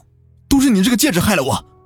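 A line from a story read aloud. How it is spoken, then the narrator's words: Angry. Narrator (Chinese): 胡磊怒道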